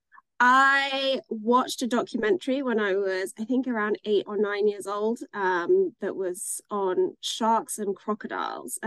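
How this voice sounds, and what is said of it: English accent. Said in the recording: “accent, you are not from the United States. You were, you did grow up in England.”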